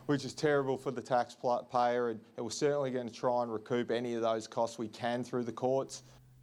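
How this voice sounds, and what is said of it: Strong soothing Australian accent. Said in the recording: “He has a tremendous Australian accent. ... It's just very soothing.”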